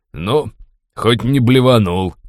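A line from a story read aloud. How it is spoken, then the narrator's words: Friendly snort. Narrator (Russian): дружелюбно хмыкнул Форс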